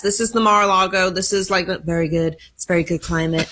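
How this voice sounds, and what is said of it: Imitates another person's voice. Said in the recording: “Are you working on a Trump impersonation? ... That was pretty good. ... It was not very good”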